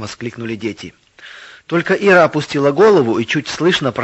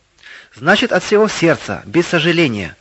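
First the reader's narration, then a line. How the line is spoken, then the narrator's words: Plain. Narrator (Russian): ответила Ира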